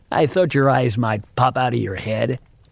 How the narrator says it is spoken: he chuckled

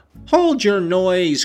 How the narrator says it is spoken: cried I hastily, enraged at her clamorous manner

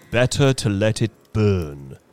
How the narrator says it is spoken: said the soldier solemnly

